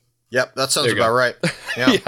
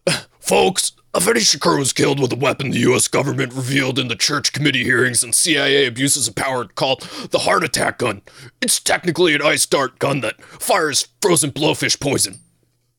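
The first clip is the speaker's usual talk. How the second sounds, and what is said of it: Alex Jones impression. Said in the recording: “reread that in your Alex Jones voice”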